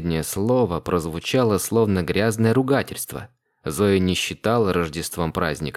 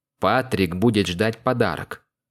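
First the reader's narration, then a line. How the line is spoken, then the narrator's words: Preachy moralizing tone. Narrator (Russian): Нравоучительным тоном произнес Льюис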